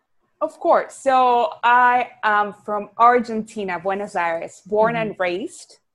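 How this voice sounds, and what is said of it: Argentine Spanish accent. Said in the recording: “people can hear this like awesome accent ... So that's where my accent comes from, Latina.”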